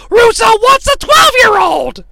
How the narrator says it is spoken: Tenay ruins this pivotal moment in the history of sports entertainment by screaming at the top of his lungs

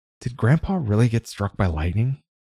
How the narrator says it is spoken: Renee spoke in a semi-whisper

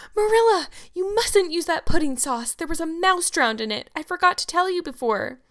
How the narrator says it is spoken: shrieked out

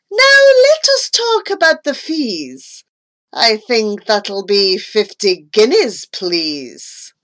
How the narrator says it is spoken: I heard the man exclaim

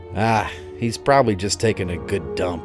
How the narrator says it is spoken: Billy grunted

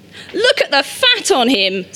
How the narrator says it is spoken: someone shouted

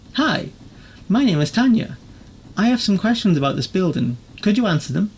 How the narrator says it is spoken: Her tone was light and friendly

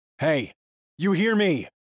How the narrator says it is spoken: yell

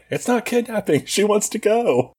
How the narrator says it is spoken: Michelle keeps yelling back

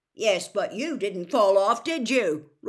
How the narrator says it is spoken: roared Amos genially

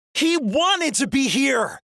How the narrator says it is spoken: Mal shouts, the loudest I've ever heard her

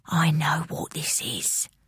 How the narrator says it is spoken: whispered Mum

